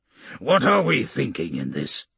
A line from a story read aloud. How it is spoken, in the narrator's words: he grunts